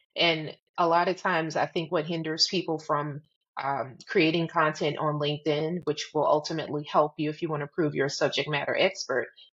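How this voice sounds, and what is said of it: Southern American drawl. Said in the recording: “I'm a Southern girl. I have a Southern drawl.”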